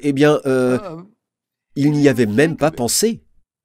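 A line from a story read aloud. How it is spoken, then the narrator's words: Stammering reply. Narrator (French): Il s'est mis à bégayer, à balbutier et a répondu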